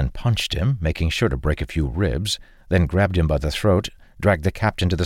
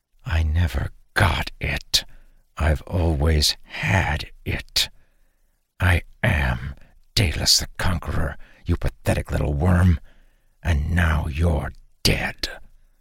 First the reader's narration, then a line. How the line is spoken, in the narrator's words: Dalen pulled him close to whisper